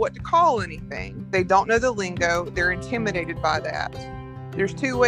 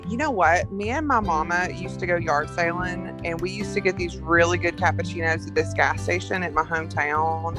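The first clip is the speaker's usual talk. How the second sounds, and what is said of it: Put-on Southern country accent. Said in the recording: “So I take my customer service accent off and turn my country girl accent on.”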